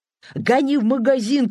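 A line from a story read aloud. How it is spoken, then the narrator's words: Shout. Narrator (Russian): крикнул Некрасов шоферу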